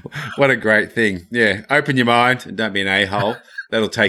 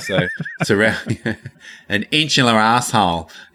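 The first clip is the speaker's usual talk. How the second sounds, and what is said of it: Put-on Australian accent. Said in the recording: “in my best Australian accent.”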